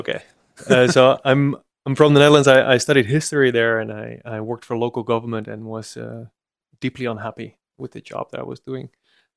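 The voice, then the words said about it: Slight Dutch accent. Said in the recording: “back in the Netherlands where I'm from, which I'm trying to hide my accent a bit, but you can hear the S flowing through.”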